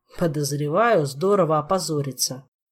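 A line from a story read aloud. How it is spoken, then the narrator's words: Gloomy guess. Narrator (Russian): мрачно предположил Витька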